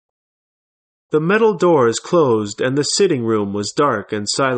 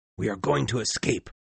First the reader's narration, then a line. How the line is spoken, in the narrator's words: Ned Land whispering